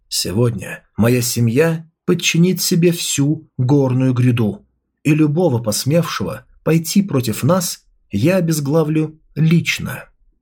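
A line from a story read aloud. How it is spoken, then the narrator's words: Icy tone. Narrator (Russian): леденящим тоном произнес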